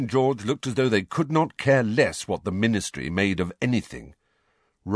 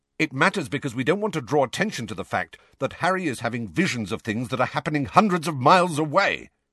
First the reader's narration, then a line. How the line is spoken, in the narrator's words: said Sirius angrily